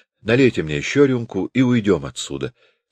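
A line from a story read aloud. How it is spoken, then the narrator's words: Plain. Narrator (Russian): сказала она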